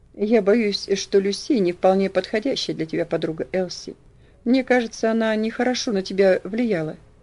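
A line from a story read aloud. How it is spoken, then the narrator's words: Sad. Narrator (Russian): печально сказал он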